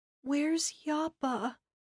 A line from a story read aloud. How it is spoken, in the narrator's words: he asked in a whisper